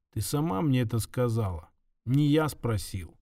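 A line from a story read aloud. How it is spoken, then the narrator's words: Quiet. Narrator (Russian): Кирилл тихо произнес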